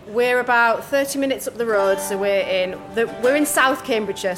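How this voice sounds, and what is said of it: Teesside northeast English accent. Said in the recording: “not a natural Hertfordshire accent ... We're both from Teesside in the northeast of England”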